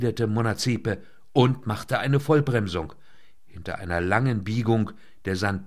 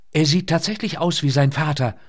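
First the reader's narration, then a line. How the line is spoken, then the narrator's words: Excited call. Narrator (German): rief sie aufgeregt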